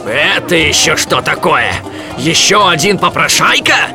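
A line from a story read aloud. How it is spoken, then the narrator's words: Roaring. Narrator (Russian): взревел торговец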